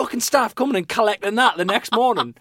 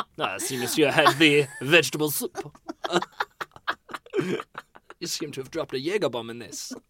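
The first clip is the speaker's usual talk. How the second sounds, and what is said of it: Put-on nondescript accent. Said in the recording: “It's just a nondescript accent that can be used for anything.”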